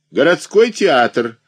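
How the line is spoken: Loud call, conductor. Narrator (Russian): выкрикнул кондуктор

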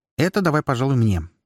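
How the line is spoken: Quick. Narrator (Russian): быстро проговорила Флеада

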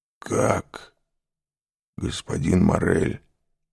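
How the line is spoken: Strained voice. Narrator (Russian): сказал сдавленным голосом

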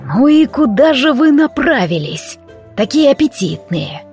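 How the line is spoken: Hoarse voice from behind. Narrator (Russian): Прозвучал хриплый голос за спиной

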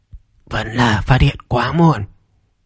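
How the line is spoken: Old man muttering. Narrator (Vietnamese): Ông lão mù lòa lẩm bẩm nói

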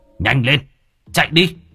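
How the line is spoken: Flustered yelling. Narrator (Vietnamese): Ivan bắt đầu dường như là luống cuống, gã gào lên

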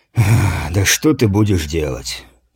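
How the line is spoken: Heavy sigh. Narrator (Russian): тяжко вздохнул воин

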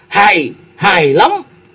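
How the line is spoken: Delighted exclamation. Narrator (Vietnamese): Cung Lư Dương Tử vỗ đùi đánh cái đét một cái kêu lên

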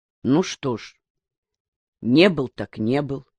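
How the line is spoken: Calm reply. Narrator (Russian): спокойно отозвался Калан

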